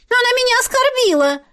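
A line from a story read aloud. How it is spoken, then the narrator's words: Small girl's shriek. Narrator (Russian): Взвизгнула пигалица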